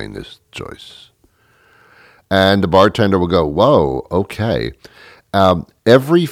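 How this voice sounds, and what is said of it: Usual voice. Nothing is said of it.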